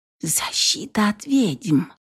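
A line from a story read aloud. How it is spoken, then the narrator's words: Barely audible mutter. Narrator (Russian): чуть слышно пробормотала она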